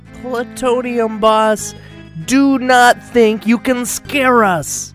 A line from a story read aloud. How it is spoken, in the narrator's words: Eve shouted